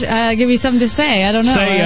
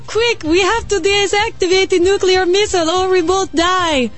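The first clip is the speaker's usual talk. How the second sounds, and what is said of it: Attempted Soviet accent, sounds Latin. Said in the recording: “Can you do a Soviet? Can you do an accent? ... My accents sound the same. ... They all sound Latin.”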